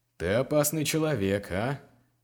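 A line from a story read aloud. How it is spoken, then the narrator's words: Chuckling laugh. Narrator (Russian): хохотнул Биргас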